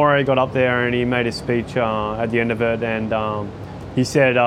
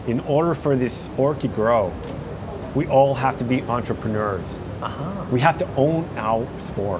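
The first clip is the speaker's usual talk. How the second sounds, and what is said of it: Put-on American accent. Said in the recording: “That's the worst American accent. ... That's pretty good. It's pretty good.”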